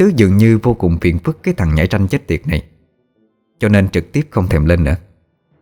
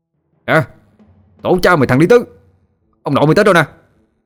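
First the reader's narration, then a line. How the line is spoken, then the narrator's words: Loud raised shout. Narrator (Vietnamese): Thiên Bạc cao giọng quát lớn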